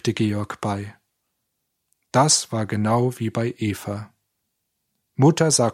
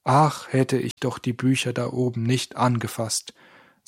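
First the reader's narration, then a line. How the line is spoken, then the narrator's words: Plain. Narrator (German): sagte Stefan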